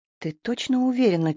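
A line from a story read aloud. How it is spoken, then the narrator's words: Asked quietly. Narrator (Russian): тихонько спросил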